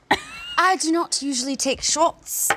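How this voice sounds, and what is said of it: Put-on English accent. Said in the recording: “Is that your English accent? ... Are you British?”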